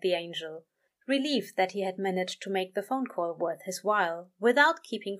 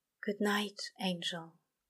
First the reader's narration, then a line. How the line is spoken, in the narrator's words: whispered the demon, and it sounded like a prayer, like a confession